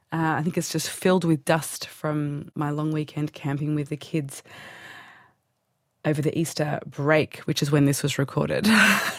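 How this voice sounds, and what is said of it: Stuffy, congested nasal voice. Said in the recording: “I have a head cold, so excuse my stuffy nose today ... I'm a bit stuffy.”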